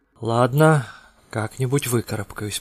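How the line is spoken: Muttering. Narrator (Russian): пробормотал он

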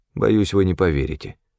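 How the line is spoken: Cold. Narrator (Russian): холодно произнес я

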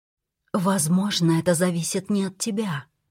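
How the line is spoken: Whispered reply. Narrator (Russian): прошептала я в ответ

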